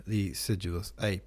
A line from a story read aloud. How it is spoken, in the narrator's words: murmured